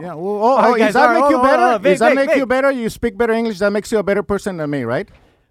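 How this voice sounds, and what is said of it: Strong non-native English accent. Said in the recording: “your English is horrible for somebody who's Mexican ... You have a huge accent”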